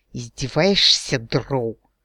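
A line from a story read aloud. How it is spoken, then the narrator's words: Hiss. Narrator (Russian): прошипела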